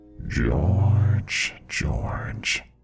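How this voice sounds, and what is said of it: Eerie whispered voice. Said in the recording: “it whispered in my ear ... it kept saying”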